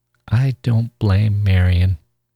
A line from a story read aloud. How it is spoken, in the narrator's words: Charlie said slowly